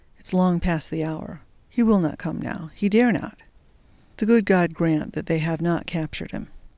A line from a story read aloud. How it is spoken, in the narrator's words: murmured